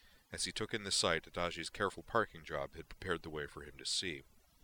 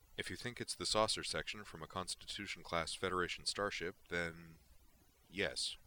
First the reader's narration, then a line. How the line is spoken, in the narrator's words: replied